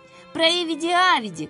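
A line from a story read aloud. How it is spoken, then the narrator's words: Shouting voices. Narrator (Russian): кричали одни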